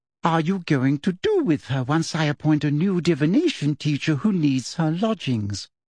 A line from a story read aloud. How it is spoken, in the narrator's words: she said in a whisper that nevertheless carried all around the entrance hall